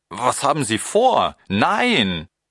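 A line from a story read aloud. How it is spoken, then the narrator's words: Calling out. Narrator (German): Ich rief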